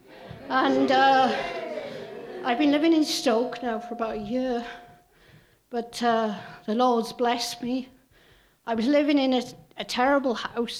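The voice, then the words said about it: Welsh accent. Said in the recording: “As you can see by my accent, I'm not from around here. I'm from Wales.”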